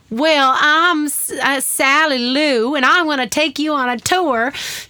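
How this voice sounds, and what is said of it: Put-on Southern American accent. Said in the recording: “I always talked in a Southern accent, which didn't make any sense. ... But it was an accent.”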